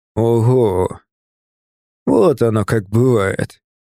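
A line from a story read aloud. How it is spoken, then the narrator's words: Drawn out. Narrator (Russian): протянул он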